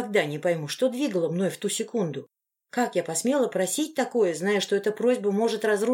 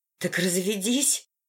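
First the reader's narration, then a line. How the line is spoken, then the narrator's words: Hoarse request. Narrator (Russian): охрипшим голосом попросила я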